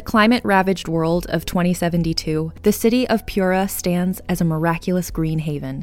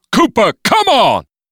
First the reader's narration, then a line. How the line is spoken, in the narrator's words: Clarence ... shout over his shoulder